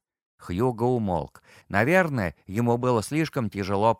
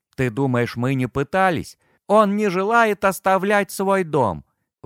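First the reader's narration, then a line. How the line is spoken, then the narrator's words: Despairing, near tears. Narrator (Russian): В голосе Хьюго прозвучало такое отчаяние, что Тому показалось, будто его друг собирается разрыдаться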